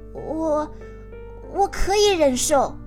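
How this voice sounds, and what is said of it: Trembling, shaky voice. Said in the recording (Chinese): “用颤抖的声音说”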